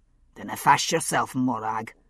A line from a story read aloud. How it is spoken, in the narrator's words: Buccleuch said gruffly